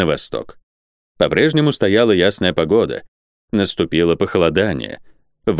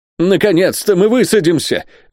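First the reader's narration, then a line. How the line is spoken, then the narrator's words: Impatient exclamation. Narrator (Russian): воскликнул Сервадак вне себя от нетерпения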